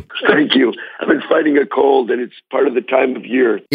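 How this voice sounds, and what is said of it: Hoarse voice from laryngitis. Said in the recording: “Sorry that you have laryngitis”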